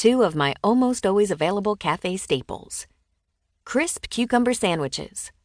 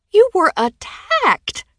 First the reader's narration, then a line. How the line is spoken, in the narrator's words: she wailed